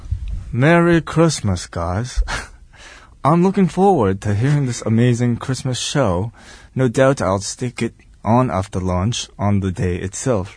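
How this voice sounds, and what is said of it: Put-on British accent. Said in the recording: “All the British feedback in a British accent? ... Okay, I'll try this.”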